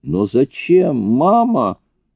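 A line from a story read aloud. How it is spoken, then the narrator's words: Shouted. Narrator (Russian): выкрикнул Дэн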